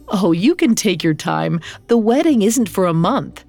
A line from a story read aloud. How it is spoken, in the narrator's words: Sarah Leah laughed and said